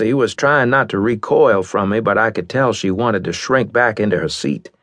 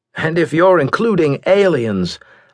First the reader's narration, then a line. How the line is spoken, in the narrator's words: continued, laughing ruefully